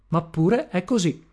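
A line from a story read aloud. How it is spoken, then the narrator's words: Plain. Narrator (Italian): mi rispose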